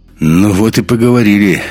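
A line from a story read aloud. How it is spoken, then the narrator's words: Wry snort. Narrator (Russian): хмыкнул Андерс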